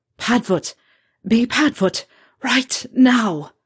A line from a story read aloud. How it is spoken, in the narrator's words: managed to gasp out